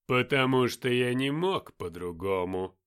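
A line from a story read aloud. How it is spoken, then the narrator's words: Lazy reply. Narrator (Russian): лениво отозвался Люцифер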